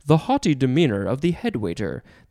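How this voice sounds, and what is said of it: Put-on British accent. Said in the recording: “You have to say that with a British accent.”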